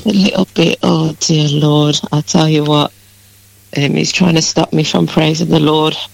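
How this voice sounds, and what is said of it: Croaky voice. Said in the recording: “a little bit croaky, you sound”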